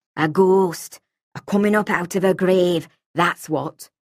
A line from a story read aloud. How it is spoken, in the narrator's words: she said in a low, harsh voice